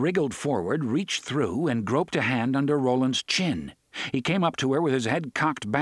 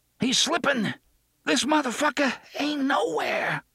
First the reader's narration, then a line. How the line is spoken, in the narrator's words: Susanna gasped